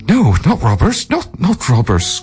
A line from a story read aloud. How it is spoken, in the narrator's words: gasped the terrified man